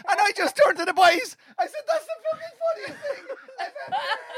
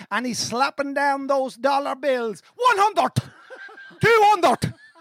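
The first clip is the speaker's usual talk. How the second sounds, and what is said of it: Put-on Cavan Irish accent. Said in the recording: “In the Cavan accent. ... Like he's in a mart.”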